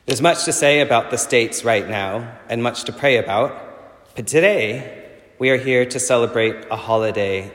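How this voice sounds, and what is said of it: Texas accent. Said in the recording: “my Texas accent has come back in force after being back in the U.S.”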